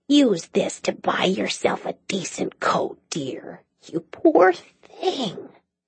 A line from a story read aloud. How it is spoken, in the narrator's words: leaned close to whisper